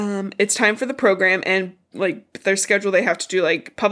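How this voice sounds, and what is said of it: Usual voice. Nothing is said of it.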